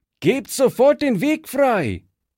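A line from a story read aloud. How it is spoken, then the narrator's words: Calling out. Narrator (German): rief Fritz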